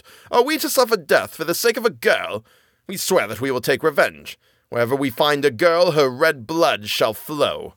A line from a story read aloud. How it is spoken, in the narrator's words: the boys became angry and cried out